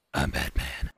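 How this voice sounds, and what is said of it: Gravelly Batman impression voice. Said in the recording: “do a Batman voice”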